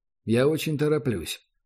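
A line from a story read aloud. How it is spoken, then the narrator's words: Very calm. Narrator (Russian): голос Гатриана прозвучал предельно спокойно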